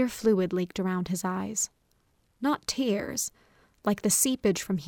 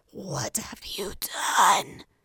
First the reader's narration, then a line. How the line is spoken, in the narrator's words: he hissed